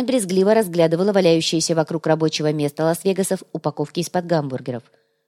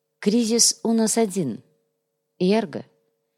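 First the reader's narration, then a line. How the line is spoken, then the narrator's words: Calm reminder. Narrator (Russian): спокойно напомнил Сантьяго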